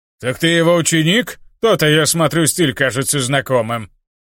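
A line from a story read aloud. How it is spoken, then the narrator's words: Demon, smirking. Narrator (Russian): Хмыкнул демон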